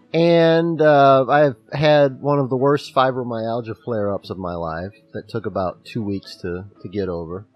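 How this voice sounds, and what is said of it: Hoarse voice. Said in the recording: “I'm a little bit hoarse”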